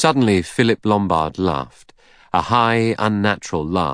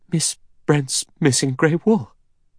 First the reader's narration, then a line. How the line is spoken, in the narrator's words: She said, and her voice shook with horror